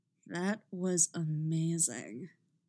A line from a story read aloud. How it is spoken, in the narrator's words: Mick purrs